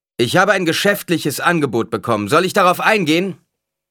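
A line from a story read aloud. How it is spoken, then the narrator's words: Called out. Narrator (German): rief er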